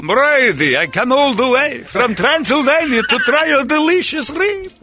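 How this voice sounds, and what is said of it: Dracula-style Transylvanian accent. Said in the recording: “I'm just coming dressed as Dracula... Transylvanian?”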